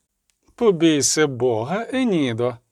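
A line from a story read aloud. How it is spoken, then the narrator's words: Laughing. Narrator (Ukrainian): засміялася Філіпа Ельгард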